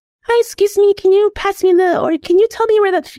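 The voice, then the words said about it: Small baby-like voice. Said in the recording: “why are you doing that little baby voice?”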